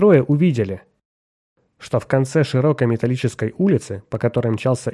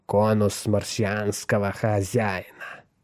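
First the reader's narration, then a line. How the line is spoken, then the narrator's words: Hissed. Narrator (Russian): прошипел он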